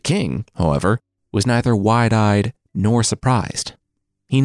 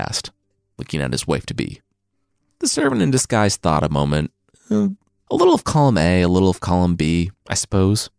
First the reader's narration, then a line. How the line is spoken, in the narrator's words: she chuckled